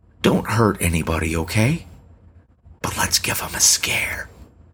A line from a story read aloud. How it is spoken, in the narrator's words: Lefty ... she whispered